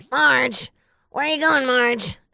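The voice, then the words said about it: Raspy cartoon character voice. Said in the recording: “do a really good voice of Marge Simpson's tías ... Marge Simpson's sisters ... las que hablan así bien rasposo”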